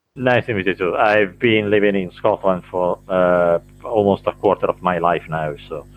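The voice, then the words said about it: Blended Italian and Scottish accent. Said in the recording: “You've got that interesting accent, though. It's kind of a blend of the two... It's a bit of a mixture of both”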